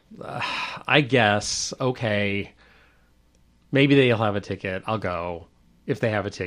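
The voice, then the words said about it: Sarcastic, reluctant delivery. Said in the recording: “in his sarcastic voice”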